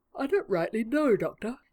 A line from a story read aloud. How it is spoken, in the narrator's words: he said evenly, as he yawned